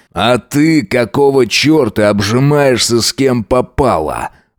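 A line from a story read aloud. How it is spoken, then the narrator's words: Growl. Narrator (Russian): рыкнул он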